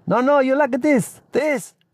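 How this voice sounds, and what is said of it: South American accent. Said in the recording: “He spoke in a South American accent.”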